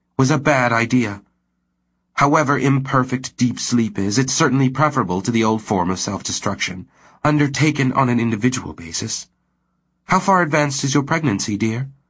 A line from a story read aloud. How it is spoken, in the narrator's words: Myra said firmly